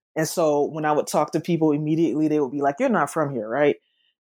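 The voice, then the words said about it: Southern US accent. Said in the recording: “accent, though it's Southern, it's not Memphis Southern”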